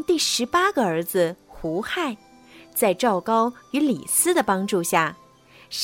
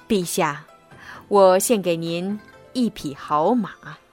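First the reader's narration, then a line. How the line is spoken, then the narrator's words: Smiling, ingratiating. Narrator (Chinese): 赵高满脸堆笑的对秦二世说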